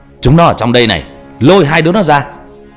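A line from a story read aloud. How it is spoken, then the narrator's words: Loud shout. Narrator (Vietnamese): tiếng quát lớn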